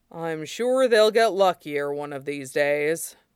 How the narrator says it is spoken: Yakume said dryly

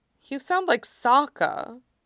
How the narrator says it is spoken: Katara sighed

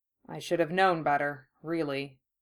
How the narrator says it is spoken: he murmured in response

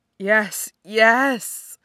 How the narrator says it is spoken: he moans

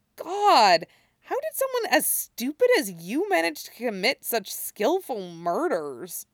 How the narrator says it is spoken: Stiles mutters

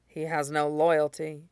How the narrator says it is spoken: says quietly

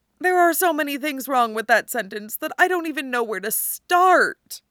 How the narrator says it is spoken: Tony groans

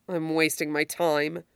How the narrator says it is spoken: she says grimly

